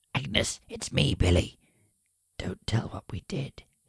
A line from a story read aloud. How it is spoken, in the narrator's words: he whispers